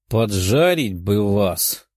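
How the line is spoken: Grumbling girl. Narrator (Russian): проворчала девушка

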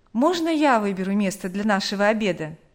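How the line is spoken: Plain. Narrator (Russian): спросил он

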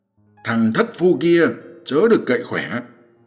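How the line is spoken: Shout. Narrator (Vietnamese): Quan Vũ quát rằng

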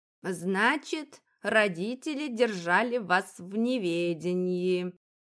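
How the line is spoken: Drawled, more statement than question. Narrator (Russian): протянула она, скорее утверждая, нежели спрашивая

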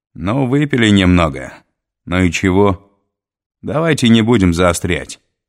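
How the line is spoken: Loud suggestion. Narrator (Russian): громко предложил Миклуха

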